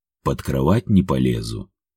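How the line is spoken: Calm warning. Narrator (Russian): спокойно предупредил меня Илья

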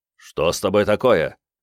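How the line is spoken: Said sternly. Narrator (Russian): строго сказал Брайан

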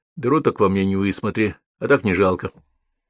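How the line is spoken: Calm reply. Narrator (Russian): Алексей спокойно ответил

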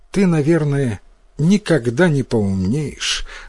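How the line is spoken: Sad speech. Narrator (Russian): грустно сказала мать

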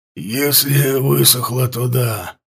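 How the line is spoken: Hoarse. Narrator (Russian): проговорил он хрипло

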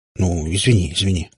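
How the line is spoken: Embarrassed mumble. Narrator (Russian): смущенно пробормотал папа

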